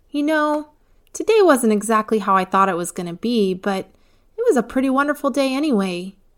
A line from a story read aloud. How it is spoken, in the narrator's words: Eva happily told her parents